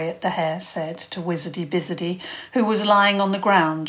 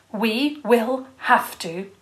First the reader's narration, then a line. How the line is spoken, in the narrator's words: Princess Isobel said firmly